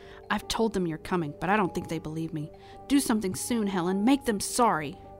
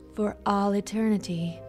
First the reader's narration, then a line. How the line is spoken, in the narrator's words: Helen sighed